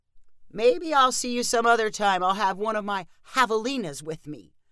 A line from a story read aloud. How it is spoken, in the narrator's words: called Junie with a satisfied chuckle